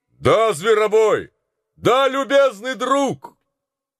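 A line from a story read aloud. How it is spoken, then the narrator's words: Thunderous shout. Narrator (Russian): скричал Гэри своим громовым голосом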